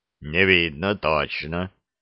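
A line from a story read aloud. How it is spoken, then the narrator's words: Deep bass. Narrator (Russian): пробасил старшина Конюхов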